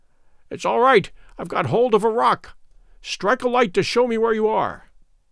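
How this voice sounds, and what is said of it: Choked, strained voice. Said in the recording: “in a choky voice”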